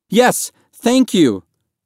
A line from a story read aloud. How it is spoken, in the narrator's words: Mahmoud cried